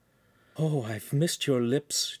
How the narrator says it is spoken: Giulietta sighed, while taking a breath in between kisses

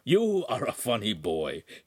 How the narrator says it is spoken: he chuckled

